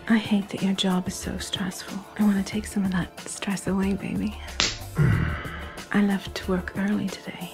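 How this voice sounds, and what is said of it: Soft, growly, sexy voice. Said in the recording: “soft, growly, sexy voice”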